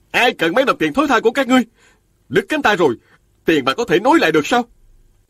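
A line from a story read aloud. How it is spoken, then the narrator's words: Shouted from crowd. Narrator (Vietnamese): Một đệ tử của Tiêu Công Lễ từ giữa đám đông la lên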